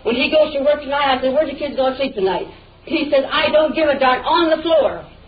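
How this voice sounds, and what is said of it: Yelling angrily. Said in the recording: “I don't see any reason why you're yelling at me ... I don't see why you're yelling at me.”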